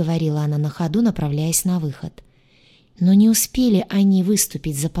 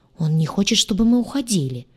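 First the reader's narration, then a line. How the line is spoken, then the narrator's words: Angry. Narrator (Russian): сердито проговорил гадюша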